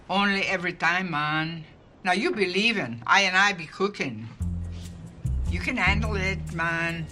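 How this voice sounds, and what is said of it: Put-on foreign accent. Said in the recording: “I could probably learn that accent in 15 minutes. ... when has one of your accents ever worked for us?”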